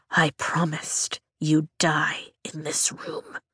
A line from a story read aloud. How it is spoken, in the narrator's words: I whisper, but I'm shaking too hard